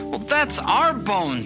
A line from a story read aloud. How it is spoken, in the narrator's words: they cried